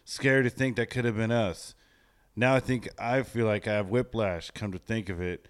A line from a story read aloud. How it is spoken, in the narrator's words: Wesley said